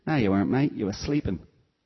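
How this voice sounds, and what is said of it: Imitated Cockney accent, self-admittedly imperfect. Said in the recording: “I'm going to get my Cockney accent wrong now, forgive me for this”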